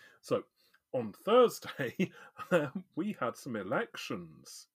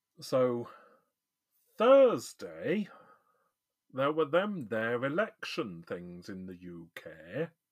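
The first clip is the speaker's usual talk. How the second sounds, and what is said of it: Poor northern English accent. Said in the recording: “I'm doing this in a really crap northern accent ... Back to normal”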